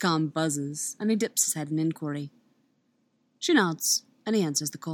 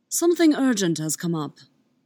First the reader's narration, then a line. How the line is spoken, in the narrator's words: Obi-Wan replies smoothly